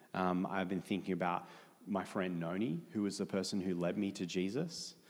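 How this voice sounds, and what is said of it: Australian accent. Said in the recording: “Australia, hence accent”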